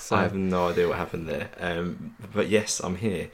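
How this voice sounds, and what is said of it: Husky, croaky voice. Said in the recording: “it sounds like a bit husky ... feeling a little bit worse for wear ... sound a little bit croaky ... the quiet whisper and the husky”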